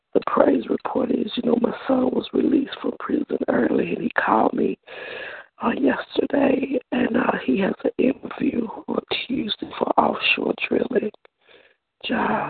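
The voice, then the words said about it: Sick-sounding voice. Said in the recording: “Forgive my voice, but I'm coming on the stand on the flu”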